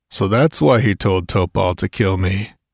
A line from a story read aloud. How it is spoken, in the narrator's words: murmured Conan